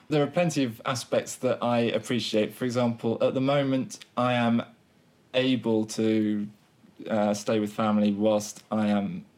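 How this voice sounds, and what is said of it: Southern English accent. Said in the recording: “I have a Southern English accent”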